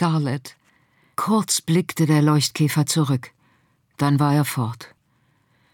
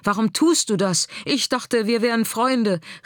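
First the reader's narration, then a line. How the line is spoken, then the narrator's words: Called out. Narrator (German): rief er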